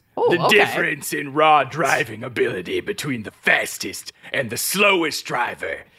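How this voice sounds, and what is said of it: Playful put-on reading voice. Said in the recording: “I'll give him a fun voice.”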